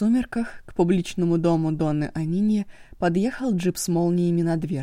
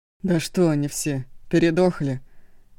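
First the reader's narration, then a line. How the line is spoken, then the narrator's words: Puzzled grumble. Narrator (Russian): Озадаченно проворчал Шанго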